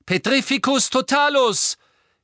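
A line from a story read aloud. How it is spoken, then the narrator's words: Shouted spell. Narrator (German): rief Harry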